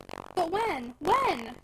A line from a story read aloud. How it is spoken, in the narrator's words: cried Edna impatiently